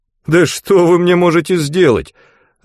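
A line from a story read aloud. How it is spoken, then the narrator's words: Laughing loudly. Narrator (Russian): расхохотался Андрей Васильевич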